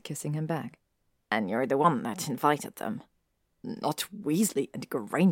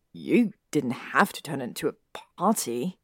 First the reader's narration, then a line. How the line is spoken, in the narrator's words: Draco said, complaint as clear in his voice as arousal